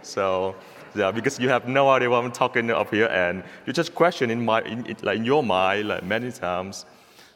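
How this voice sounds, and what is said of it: Vietnamese accent. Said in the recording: “two different accents, American accent, Father Matt, Vietnamese accent, Vietnamese version ... my accent can be an advantage for you all ... probably my accent can keep you all awake”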